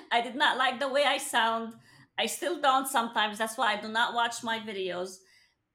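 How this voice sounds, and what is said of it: Speaks with an accent. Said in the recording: “I have an accent. I tell people I have an accent.”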